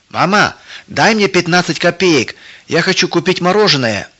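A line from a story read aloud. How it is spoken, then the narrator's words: Shout. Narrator (Russian): Тима крикнул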